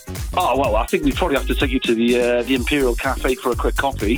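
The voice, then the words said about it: Noticeable regional accent. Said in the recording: “my accent's a bit funny”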